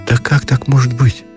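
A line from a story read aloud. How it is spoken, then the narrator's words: Confused sigh. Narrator (Russian): не понимая, смутился и вздохнул Ушатиков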